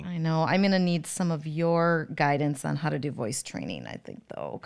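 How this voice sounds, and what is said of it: Hoarse, strained voice. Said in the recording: “my voice is a little taxed ... this is what I sound like when I have spewed wisdom all weekend. I just sound really ... hoarse”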